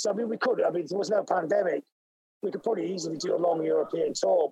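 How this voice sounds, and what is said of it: Hoarse, strained voice. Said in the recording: “You can tell how hoarse I am because I was in the studio yesterday”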